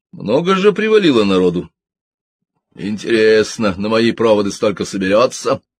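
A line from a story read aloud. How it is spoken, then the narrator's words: Chuckling. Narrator (Russian): Уотсон снова хохотнул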